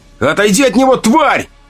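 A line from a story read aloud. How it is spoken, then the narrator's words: Fearless frenzied scream. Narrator (Russian): закричал, и в его голосе не было ничего, кроме слепой безумной отваги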